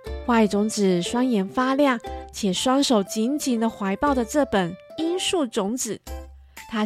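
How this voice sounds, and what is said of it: Usual voice. Nothing is said of it.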